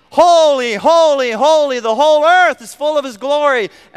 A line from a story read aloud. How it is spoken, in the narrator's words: seraphim on one side of heaven, however far that is, perhaps miles apart from each other, shouting